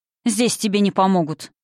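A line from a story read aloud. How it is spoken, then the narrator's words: Sharp, curt. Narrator (Russian): бросил он резко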